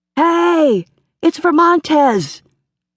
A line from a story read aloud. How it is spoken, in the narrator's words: Molly Edmonds shouted